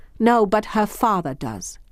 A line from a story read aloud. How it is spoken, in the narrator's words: she said sharply